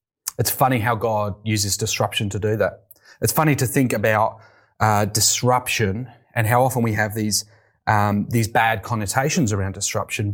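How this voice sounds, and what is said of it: British English accent. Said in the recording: “You may tell from my accent, I'm from the UK.”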